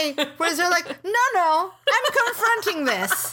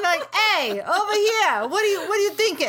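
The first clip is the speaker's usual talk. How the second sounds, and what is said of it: Poor put-on New York accent. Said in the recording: “My terrible New York accent.”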